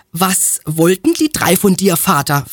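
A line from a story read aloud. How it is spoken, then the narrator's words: Plain question. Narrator (German): fragte Berengar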